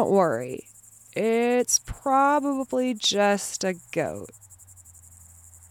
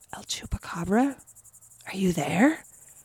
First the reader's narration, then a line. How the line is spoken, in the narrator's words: you might whisper